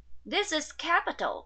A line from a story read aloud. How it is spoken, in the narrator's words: cried, as he took half of it at a draught